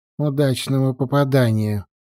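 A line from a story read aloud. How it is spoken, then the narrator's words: Grumbling mutter. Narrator (Russian): пробурчал Чивайст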